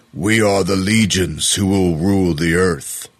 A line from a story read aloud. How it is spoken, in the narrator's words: yelled out in what sounded like a deep, growling German accent